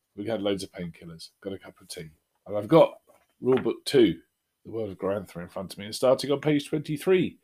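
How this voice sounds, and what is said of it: Sore, strained throat voice. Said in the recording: “as you can probably hear from my voice, I have come down with a little bit of tonsillitis”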